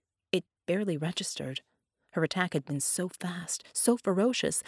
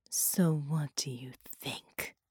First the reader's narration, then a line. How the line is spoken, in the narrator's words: she breathed